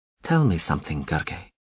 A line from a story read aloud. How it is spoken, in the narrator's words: Nikosar said evenly